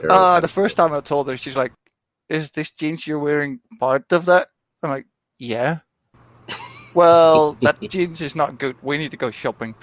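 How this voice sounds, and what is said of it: Dutch accent speaking English. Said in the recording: “It sounds like you have an accent. ... I'm from the Netherlands.”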